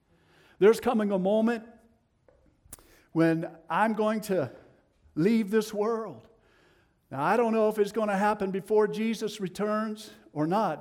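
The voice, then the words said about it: Tennessee Southern US accent. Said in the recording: “Excuse my Tennessee accent.”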